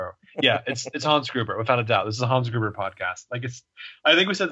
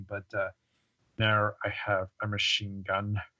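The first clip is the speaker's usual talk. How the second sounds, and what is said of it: Imitates a film villain's voice. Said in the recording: “I'm not very good at this impression”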